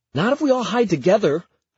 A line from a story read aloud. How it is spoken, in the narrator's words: I gasp